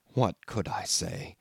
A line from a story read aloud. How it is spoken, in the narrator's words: he asked in the same low tone